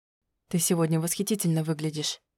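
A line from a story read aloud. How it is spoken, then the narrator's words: Whisper in the ear. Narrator (Russian): прошептал мне на ухо Альвир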